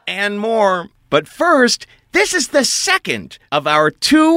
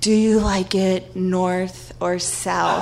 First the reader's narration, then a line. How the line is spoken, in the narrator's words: he whispers to me, so cringeworthy